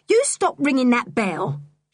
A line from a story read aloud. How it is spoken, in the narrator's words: she said angrily